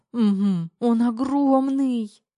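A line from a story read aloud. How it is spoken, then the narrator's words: Wheezy. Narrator (Russian): Просипела Тома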